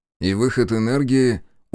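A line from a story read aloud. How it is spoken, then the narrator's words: Tired question. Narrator (Russian): устало спросил я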